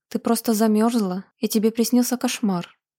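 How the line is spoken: Plain. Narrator (Russian): сказала она

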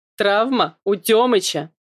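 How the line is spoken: Loud laughter. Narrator (Russian): Брат снова расхохотался

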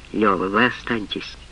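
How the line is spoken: Dry. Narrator (Russian): сухо, сказала Рубинчику

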